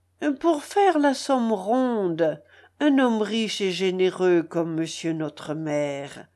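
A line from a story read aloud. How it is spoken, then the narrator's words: Coaxing, wheedling peasant. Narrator (French): dit le paysan d'une voix câline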